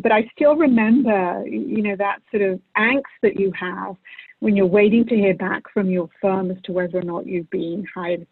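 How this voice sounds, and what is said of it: British-influenced accent. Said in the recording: “I was called to the bar many, many, many, many years ago in the UK, and that's where this accent comes from.”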